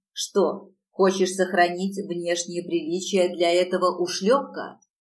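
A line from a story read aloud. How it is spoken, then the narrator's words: Growled. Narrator (Russian): зарычал он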